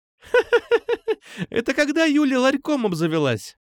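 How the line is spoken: Loud laughter. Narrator (Russian): хохотала Алиса

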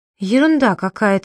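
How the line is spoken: Trembling voice. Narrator (Russian): дрожащим голосом проговорила Айна

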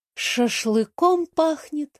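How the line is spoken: Sad. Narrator (Russian): грустно сказала Сандра

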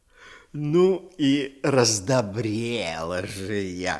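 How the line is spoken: Plain. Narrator (Russian): сказала горошина

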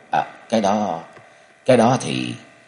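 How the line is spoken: Stammering. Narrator (Vietnamese): Cung Cừu ấp úng

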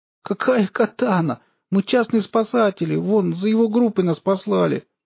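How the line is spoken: Tearful explaining. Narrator (Russian): плачущим голосом начала объяснять Алиса

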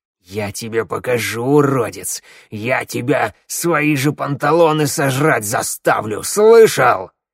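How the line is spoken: Growling. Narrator (Russian): Булыга с рычанием

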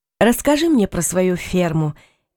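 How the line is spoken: Lazy. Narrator (Russian): лениво сказала Лючия

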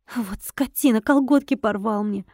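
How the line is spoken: Sobbing woman. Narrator (Russian): Сидящая всхлипнула

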